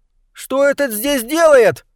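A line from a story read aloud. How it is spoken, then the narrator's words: Squeal. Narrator (Russian): взвизгнул Уилбур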